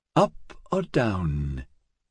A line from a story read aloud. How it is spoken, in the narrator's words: he whispered to himself